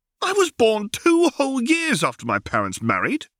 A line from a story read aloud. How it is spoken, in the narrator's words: cried Harry